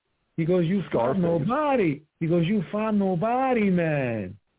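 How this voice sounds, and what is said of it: Imitating Canelo's accent. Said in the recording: “That accent.”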